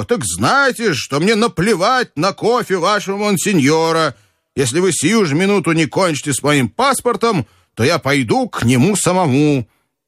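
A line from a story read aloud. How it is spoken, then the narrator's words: Shouting even louder. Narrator (Russian): я и закричал, но еще сильнее его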